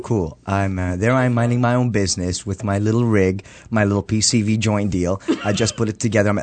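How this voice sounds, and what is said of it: Speaks with a distinctive accent. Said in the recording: “he's got that wicked accent... He's got this cute little accent.”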